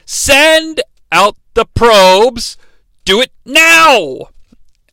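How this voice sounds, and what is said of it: Bad imitation of a distinctive character inflection. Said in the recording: “she says it just like Anakin would, with that sort of unique inflection ... It's a really bad impression or characterization”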